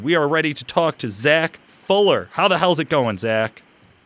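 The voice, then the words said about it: Loud, excited near-screaming. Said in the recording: “I'm too damn excited... I don't know if you can tell. I'm screaming in the microphone.”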